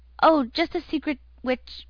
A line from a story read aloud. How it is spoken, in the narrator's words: my uncle stammered